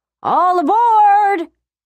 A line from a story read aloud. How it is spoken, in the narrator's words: The engineer yelled